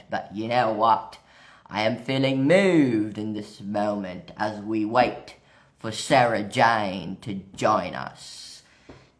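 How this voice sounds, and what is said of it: Put-on British accent. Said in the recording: “I'm not sure why I have this British accent”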